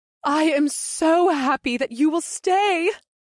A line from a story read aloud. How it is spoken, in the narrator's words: Ibseth giggled